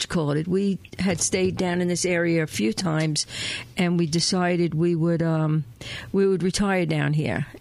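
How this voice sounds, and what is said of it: Long Island New York accent. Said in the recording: “from Long Island, New York ... Can you hear the accent? ... gorgeous”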